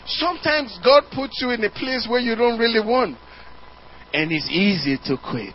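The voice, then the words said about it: African-accented English. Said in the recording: “The Americans can't even understand the word I'm saying... change my accent... I'm from Africa”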